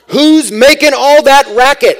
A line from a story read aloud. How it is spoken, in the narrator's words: he shouts